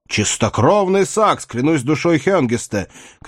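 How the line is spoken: Shouting. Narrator (Russian): крикнул Седрик

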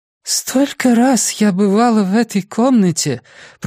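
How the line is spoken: New, indistinct voice. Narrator (Russian): произнесла Джинни Томлинсон новым, невнятным голосом

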